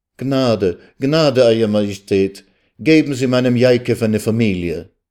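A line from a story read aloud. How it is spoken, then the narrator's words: Heartfelt pleading cry. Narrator (German): Aus der Tiefe ihrer Seele rief sie zu dem Herrscher auf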